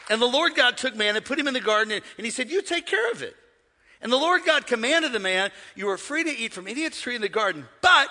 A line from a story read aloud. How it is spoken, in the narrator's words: everybody shout